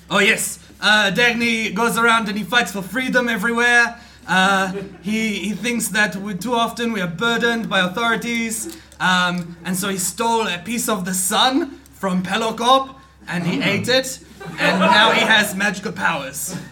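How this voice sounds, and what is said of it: Put-on fantasy accent. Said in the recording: “What's the accent that you're going for there? ... It's a fantasy accent”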